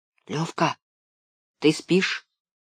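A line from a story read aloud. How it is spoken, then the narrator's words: Quiet question. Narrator (Russian): тихо спросил я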